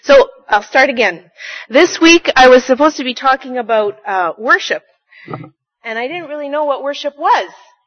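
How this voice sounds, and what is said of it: Loud projecting teacher voice. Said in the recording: “I'll talk in my teacher voice then”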